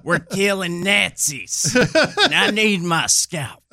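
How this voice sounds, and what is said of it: Quaint folksy Aldo Raine accent. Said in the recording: “Lieutenant Aldo Rain from Inglourious Basterds ... Brad Pitt's character ... quaint, folksy accent”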